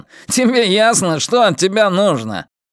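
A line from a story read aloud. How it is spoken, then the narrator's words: Yelling. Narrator (Russian): заорал еще раз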